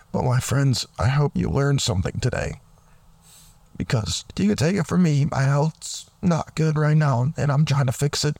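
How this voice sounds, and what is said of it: Voice breaking in and out. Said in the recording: “my voice is kind of going in and out”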